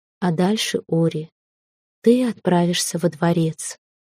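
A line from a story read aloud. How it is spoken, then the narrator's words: Quiet. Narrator (Russian): сказал он тихо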